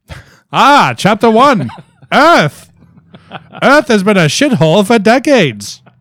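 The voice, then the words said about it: Theatrical old-timey narrator voice. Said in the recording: “should I do it in like a narrator voice? ... I would do it in like the ragtime voice.”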